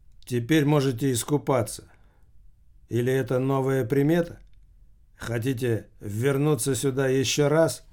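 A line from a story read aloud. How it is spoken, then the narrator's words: Plain. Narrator (Russian): спросил Гараничев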